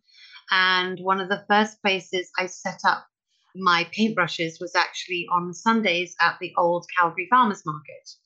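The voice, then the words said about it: Non-local foreign accent. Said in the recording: “as you can probably tell from my accent, I'm not from here”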